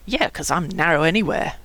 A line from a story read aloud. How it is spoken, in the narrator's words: Joey snorted